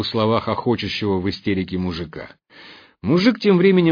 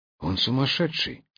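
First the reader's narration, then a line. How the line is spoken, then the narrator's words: Barely audible. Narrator (Russian): еле слышно поделился догадкой Хлюпик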